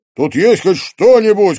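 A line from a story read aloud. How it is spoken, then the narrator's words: Shouted. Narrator (Russian): крикнул он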